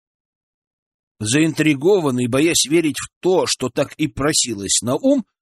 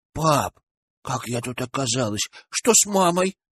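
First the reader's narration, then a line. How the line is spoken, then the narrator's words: Frightened small voice. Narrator (Russian): спросила она испуганным голоском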